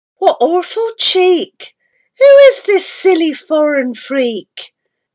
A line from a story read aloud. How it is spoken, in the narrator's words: she cried